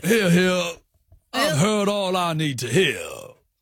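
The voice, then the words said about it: American detective character voice. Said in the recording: “Judge Jarchy was American in the intro. I wonder if I'm bringing that a bit in ... That's kind of good. Although you sound like a detective character.”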